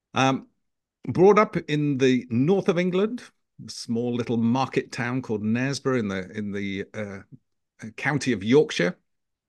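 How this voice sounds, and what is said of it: British accent. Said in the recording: “as you can probably tell from my very British accent”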